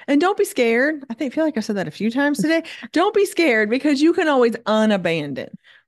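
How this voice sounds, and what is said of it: Slight Southern accent. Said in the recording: “Your accent. That's the only time you ever sounded Southern to me.”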